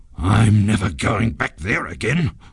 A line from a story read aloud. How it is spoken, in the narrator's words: growled the ghost in a very bad temper